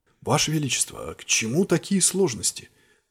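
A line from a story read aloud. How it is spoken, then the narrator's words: Slightly hoarse question. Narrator (Russian): Чуть хрипло спросил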